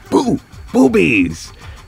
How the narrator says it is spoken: she goes

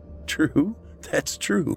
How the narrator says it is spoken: Matt said with a laugh

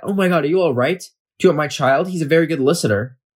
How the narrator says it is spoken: She will gasp and cry

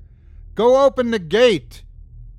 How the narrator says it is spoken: I screamed at her

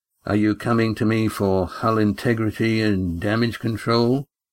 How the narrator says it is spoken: he asked in a flat, unemotional voice

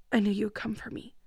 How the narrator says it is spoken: she said in a quiet voice

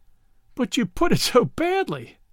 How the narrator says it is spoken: Brett laughed

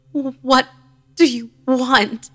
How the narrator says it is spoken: She moaned and croaked again, repeating the same noise until I could make it out

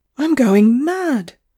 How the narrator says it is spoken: cried poor Miss Whateley

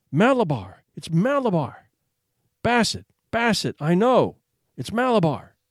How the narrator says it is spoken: So the child cried

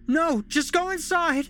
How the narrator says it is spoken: Holly screamed as she took off running

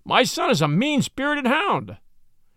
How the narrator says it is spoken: cried this furious old worldling

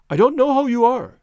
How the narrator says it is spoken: he cried

